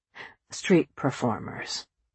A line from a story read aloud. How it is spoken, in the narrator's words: Richard said quietly